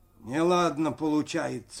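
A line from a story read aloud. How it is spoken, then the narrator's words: Dull muffled voice. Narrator (Russian): глухо сказал Максим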